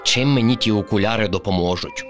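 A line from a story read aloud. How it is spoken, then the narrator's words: Grumbled. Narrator (Ukrainian): буркнув Кріт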